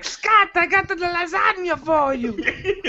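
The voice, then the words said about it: Imitates another person's accented voice. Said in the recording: “He has an accent”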